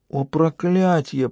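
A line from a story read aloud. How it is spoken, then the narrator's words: Moaning. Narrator (Russian): простонала Лиа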